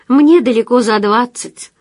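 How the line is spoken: Laughing. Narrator (Russian): засмеялась она

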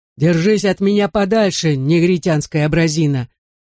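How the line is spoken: Menacing warning. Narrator (Russian): грозно предупредил Человека-Луну большое дуло

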